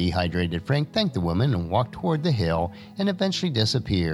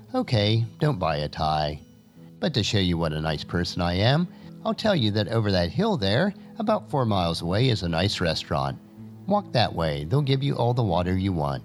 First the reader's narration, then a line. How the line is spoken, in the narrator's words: Calmly, she replied